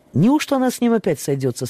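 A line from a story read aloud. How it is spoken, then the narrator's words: Plain. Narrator (Russian): спросил Эдвард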